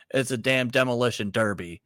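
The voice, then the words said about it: Southern accent Jim Ross impression. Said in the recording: “say it with a southern accent if you're going to invoke Jim Ross... That was a 6 out of 10”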